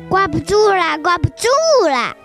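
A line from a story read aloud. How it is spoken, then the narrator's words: Shouting. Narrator (Chinese): 有的又叫道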